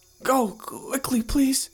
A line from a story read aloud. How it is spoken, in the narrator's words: he cried out